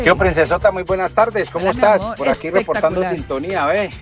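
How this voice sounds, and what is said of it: Colombian Caleño Spanish accent. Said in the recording (Spanish): “cómo me encanta acento, ¿ve? ... ese acento caleño es una cosa hermosa, divina”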